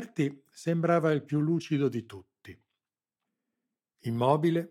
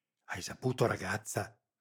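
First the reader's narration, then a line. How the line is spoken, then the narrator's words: Frightened whisper. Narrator (Italian): sussurrò Rita, sulle guance un pallore spaurito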